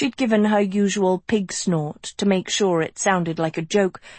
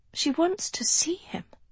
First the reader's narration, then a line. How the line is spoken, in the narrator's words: Sophie said softly